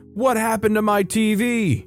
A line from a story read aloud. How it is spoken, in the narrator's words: he starts screaming